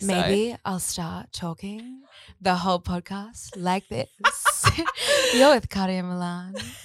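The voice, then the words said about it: Sultry, sexy radio voice. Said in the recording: “It's my radio sex voice ... really sexy radio voice ... in that voice ... in a sex voice”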